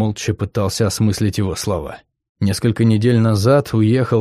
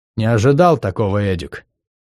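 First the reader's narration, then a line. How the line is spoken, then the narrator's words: Dry, heavy man's voice. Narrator (Russian): сухо повторил высокий грузный мужчина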